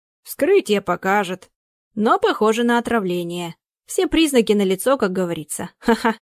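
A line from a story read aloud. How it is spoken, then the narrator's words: Inappropriate laughing. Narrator (Russian): Опять неуместно засмеялся доктор Цинкевич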